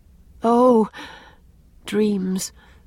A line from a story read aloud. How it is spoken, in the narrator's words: sighed Anne